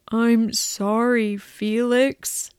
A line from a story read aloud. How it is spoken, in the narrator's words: Ed says sadly